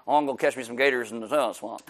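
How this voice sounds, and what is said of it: Put-on rural swamp hillbilly accent. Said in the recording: “my hillbilly accent... it wasn't a hillbilly accent, apparently... people trying to catch alligators”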